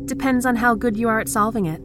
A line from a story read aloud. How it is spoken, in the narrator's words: she shouted